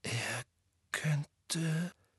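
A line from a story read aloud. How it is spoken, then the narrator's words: Hoarse whisper. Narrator (German): flüsterte Harry heiser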